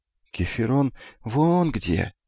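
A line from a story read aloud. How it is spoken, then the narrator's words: Quiet. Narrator (Russian): тихо сказал Эфикл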